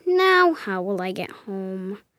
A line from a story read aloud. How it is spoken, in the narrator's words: I mumbled to myself